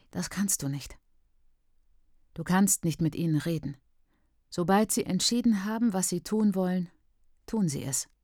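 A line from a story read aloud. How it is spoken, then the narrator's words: Toneless. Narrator (German): sagst du tonlos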